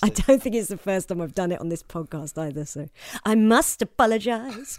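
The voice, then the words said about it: Accent with L sounding like W. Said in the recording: “hears my double L's as a big W sound, my horrible accent”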